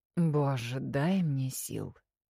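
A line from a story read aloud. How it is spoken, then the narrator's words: Groaning. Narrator (Russian): Простонала темнота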